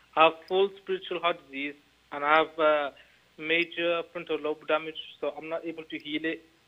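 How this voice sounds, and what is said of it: Heavy, hard-to-understand accent. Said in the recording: “I can hear you, but I cannot understand your accent.”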